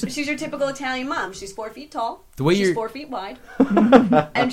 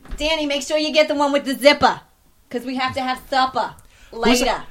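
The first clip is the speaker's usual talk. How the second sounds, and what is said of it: Older Italian woman accent, dropped R's. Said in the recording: “proper Italian older woman accent ... she has no R's at the end of her words”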